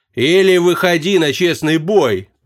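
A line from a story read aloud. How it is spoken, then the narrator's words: Booming burly man. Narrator (Russian): прогудел третий, здоровенный детина, касая сажень в плечах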